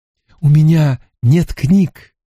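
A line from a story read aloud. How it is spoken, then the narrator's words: Exclamation. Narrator (Russian): воскликнул Стрэндж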